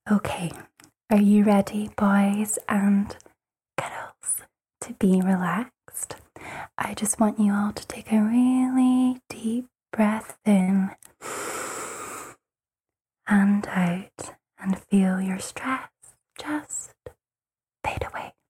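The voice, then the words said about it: Soft, relaxing, soothing voice. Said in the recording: “can you say a few words just to help our listeners unwind and relax in that beautiful voice”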